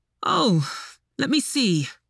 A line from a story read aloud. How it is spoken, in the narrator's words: he said with a sigh